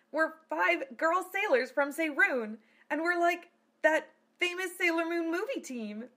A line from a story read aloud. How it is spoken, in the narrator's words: squealed Bunny